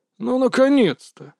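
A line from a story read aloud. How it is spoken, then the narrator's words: Grumbling. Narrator (Russian): проворчал мастер Маэ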